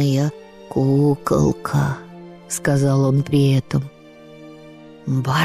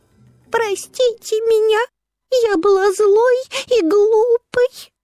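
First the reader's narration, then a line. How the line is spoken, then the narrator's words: Sobbing. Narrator (Russian): закончила рассказ Барби и всхлипнула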